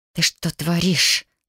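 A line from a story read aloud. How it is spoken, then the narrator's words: Snakelike hiss. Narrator (Russian): зашипела змеей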